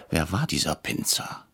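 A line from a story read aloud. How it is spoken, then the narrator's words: Whisper. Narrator (German): flüsterte ich Herrn Brecher zu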